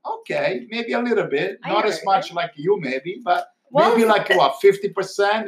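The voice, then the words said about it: Slight Boston accent. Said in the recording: “you had a Boston accent ... You do. You do a little bit. ... You sound like the soprano.”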